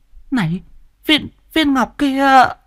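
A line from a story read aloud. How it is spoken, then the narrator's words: Stammering. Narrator (Vietnamese): Mụ lắp bắp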